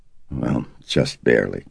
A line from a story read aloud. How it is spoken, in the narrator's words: Karis murmured